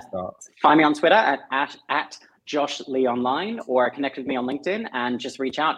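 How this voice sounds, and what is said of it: Australian accent. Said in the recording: “Or just to hear your Australian accent. ... Just to hear my Aussie accent. ... Bogan.”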